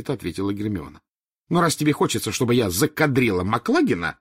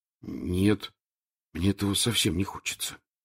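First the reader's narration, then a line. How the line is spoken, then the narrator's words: Very quiet. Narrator (Russian): очень тихо сказал Рон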